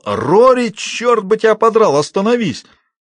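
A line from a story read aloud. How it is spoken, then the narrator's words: Yelled. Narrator (Russian): заорал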